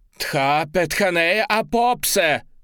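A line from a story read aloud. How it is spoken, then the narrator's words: Young woman crying out. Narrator (Russian): выкрикнула девушка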